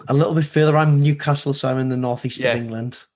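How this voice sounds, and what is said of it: Northern English accent. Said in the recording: “from what I gather from your accent, you probably live quite close to Liverpool ... you got that northern accent”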